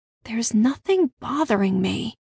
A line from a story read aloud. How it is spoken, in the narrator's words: I said quietly